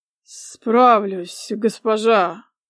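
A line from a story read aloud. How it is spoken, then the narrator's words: Muffled, hollow voice. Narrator (Russian): произнес он глухим голосом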